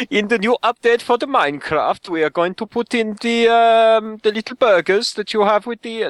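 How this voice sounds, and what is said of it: Attempted Swedish accent sounding German. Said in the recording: “I can do a Swedish accent if you really want, but it's going to sound horrible ... No, it's German now, isn't it? ... That sounds German. ... It sounds German now.”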